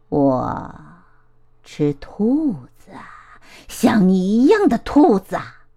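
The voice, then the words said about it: Harsh, rasping character voice. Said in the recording (Chinese): “他用刺耳的声音说”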